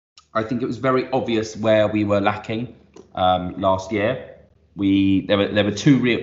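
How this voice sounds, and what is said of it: Excited, energetic speaking voice. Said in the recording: “as you can hear from my voice, I'm excited.”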